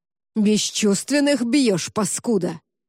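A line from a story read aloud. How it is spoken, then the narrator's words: Roar. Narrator (Russian): взревел он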